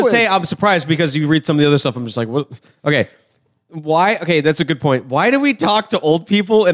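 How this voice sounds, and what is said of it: Usual voice. Nothing is said of it.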